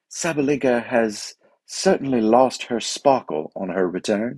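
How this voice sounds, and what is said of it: Put-on British accent, BBC style. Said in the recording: “That was a good British accent, wasn't it?”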